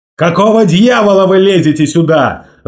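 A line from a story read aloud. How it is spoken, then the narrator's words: Yelling. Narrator (Russian): заорал он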